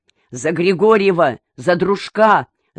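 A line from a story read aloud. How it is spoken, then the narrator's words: Shouted. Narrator (Russian): закричал Раевский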